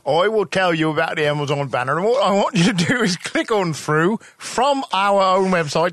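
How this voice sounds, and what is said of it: Bad Matthew Broderick impression. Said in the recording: “That's the worst Matthew Broderick I've ever heard... That's terrible.”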